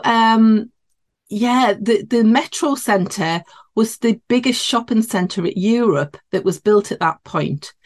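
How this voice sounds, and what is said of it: Geordie northeast English accent. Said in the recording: “you might be able to tell by my accent. I'm in the northeast of England. So yeah, this would be classed as a Geordie accent”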